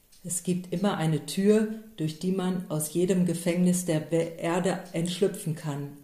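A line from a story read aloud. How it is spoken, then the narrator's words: Plain answer. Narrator (German): antwortete Don Camillo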